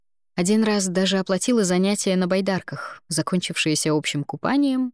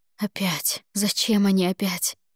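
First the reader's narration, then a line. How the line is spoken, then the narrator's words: Muttering under breath. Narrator (Russian): бормотала себе под нос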